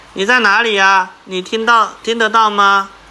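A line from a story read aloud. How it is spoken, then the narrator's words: Loud calling question. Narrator (Chinese): 苏西大声问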